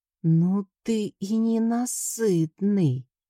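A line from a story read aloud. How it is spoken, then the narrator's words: Hoarse, womanish voice. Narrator (Russian): прохрипел мой муж женским голоском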